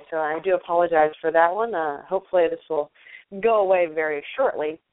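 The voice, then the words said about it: Rough voice from a cold. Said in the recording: “I have a little bit of a cold, so my voice sounds a little rough today”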